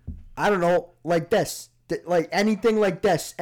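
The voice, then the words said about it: Put-on Boston/New York/Chicago accent. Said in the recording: “Boston, Chicago, New York accent ... you pronounce the O too long ... Jewish Boston, Jewish New York”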